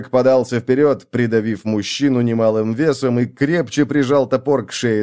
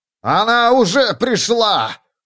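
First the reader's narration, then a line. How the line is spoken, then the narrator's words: Shouted out. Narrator (Russian): выкрикнул оратор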